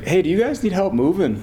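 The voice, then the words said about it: Quoted line in Minnesota accent. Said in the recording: “got this Minnesota accent”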